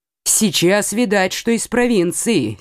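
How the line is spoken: Angry grumble. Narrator (Russian): сердито проворчал он

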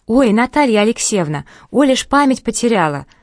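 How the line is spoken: Gleeful blurt. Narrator (Russian): радостно ляпнула Ира

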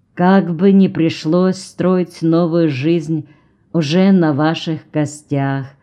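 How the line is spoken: Sad remark. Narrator (Russian): грустно заметил Джон

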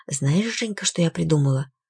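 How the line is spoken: Conspiratorial tone. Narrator (Russian): тетушка заговорческим тоном произнесла

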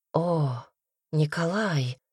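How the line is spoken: Sighing. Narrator (Russian): вздохнула Дарья

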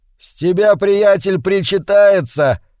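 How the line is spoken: Singer shouting over music. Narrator (Russian): крикнул в зал певец под бравурную инструментальную коду

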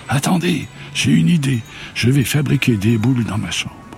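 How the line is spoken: Cry out. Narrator (French): Ozalie s'écria

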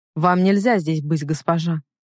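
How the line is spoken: Cold. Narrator (Russian): холодно сказал

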